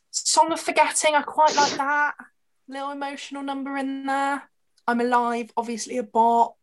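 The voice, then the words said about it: Dry, failing voice. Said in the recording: “Dry throat. ... My voice is going.”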